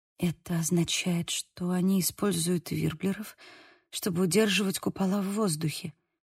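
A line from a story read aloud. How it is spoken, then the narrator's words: Whisper. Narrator (Russian): прошептала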